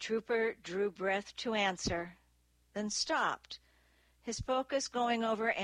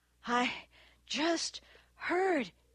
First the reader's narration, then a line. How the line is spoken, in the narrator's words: gasped